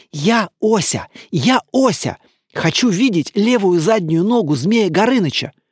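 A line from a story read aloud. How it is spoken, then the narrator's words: Whisper. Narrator (Russian): Ося прошептал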